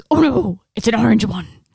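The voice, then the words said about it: Imitates another person's voice. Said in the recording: “My Tom Hardy voice is not very good.”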